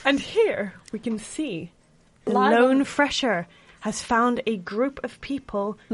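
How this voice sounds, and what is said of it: Nature documentary narrator impression. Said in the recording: “a really good David Attenborough impression”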